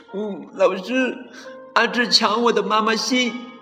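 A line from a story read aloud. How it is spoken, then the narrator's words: Child crying. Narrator (Chinese): 小朋友哭着说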